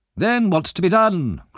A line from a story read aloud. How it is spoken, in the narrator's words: cried the doctor impatiently